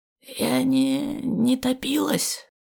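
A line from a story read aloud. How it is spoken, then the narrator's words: Hoarse rasp. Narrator (Russian): прохрипела я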